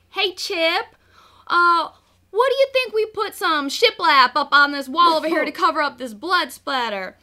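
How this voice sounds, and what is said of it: Imitates another person's voice. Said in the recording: “my Joanna Gaines impersonation.”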